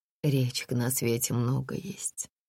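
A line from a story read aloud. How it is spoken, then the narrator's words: Sighing. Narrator (Russian): вздохнула Олеся Ивановна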